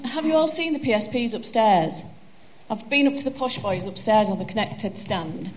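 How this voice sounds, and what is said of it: Broad Yorkshire accent. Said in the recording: “I've not got a wonderful American accent. I've got a broad Yorkshire accent,”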